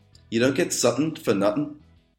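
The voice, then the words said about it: Scouse accent. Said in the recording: “in the Scouse accent... the Scouse accent, it can be tricky”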